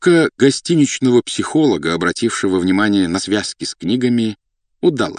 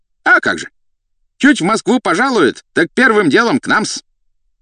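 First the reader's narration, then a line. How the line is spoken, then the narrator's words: Brisk sharp shout. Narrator (Russian): деловито прикрикнул на японца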